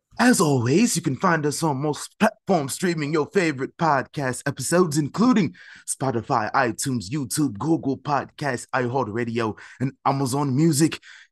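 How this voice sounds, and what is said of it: Put-on accent. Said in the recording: “let me get the accent back”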